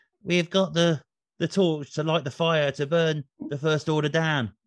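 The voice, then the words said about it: Cockney London accent, Oscar Isaac's Moon Knight character. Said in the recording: “his character in Moon Knight, or one of them, is a very kind of like Cockney London guy... in that accent.”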